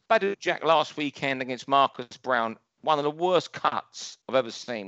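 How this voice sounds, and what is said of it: London accent. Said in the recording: “my London accent there. It's how we talk in Battersea.”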